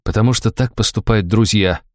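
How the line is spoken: Muttering. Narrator (Russian): буркнул я

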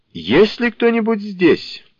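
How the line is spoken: Loud question. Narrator (Russian): громко спросил Фонарщик

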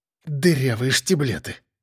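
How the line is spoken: Exhaled exclamation. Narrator (Russian): выдохнул Эдик

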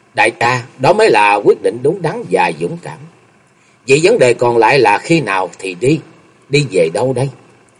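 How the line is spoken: Smiling. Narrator (Vietnamese): Chung Nhật Tự mỉm cười nói

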